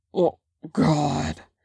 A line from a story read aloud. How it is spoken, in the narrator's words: Jungin grunts